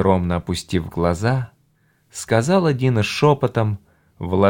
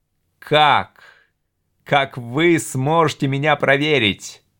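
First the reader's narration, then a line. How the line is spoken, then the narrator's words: Nearly shouting. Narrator (Russian): чуть не закричал Доран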